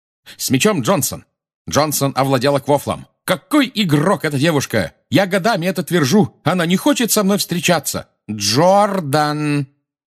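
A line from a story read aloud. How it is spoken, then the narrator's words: Shouting. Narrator (Russian): крикнула профессор МакГонагал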